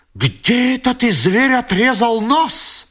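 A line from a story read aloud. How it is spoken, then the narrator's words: Angry shout. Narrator (Russian): закричала с гневом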